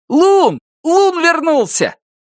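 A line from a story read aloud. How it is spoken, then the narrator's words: Shouted. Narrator (Russian): закричал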